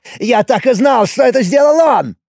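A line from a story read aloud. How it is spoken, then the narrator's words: Exclaiming. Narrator (Russian): воскликнул Якол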